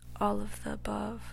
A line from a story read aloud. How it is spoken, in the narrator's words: his conscience whispered